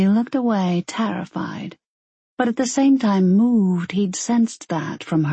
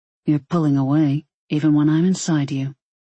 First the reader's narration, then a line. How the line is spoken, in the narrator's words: he stated flatly